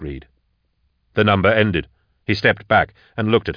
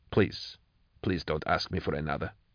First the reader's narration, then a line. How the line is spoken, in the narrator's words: she said quietly